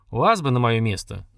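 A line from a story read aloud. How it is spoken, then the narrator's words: Displeased grumble. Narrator (Russian): недовольно проворчал Искин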